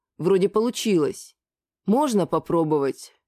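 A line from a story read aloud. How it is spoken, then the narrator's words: Sighing. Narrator (Russian): Опять вздохнул Лигнурф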